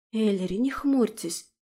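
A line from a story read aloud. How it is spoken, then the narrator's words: Whisper. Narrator (Russian): прошептала художница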